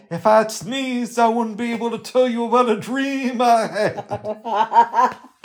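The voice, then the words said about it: Martin Luther King impression. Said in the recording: “That's my Martin Luther King impression.”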